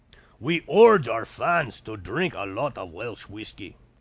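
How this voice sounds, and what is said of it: Failed Russian accent, sounds Scottish. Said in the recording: “That's not a Russian accent. I can't do a Russian accent. I'm slipping into like a Scottish accent.”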